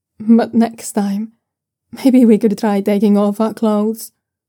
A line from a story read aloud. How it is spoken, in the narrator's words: Luo Fusheng says with a small laugh